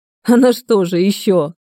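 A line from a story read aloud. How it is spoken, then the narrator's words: Young man's guffaw. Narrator (Russian): снова захохотал парень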